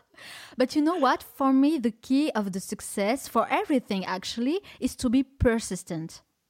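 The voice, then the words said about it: French-accented English. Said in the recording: “my English is not perfect ... The French accent's a little bit different.”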